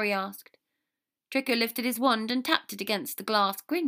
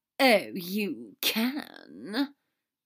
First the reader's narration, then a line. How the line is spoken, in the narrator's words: Draco drawled, trying to refine his anger down to a more Severus-like sarcasm